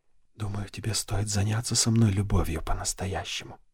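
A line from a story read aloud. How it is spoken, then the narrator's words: Whisper. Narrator (Russian): прошептала она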